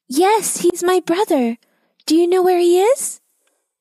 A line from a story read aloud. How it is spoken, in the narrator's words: Elsie asked desperately